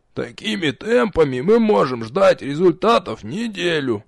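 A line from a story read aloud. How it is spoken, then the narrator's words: Grumbling. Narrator (Russian): проворчал Нич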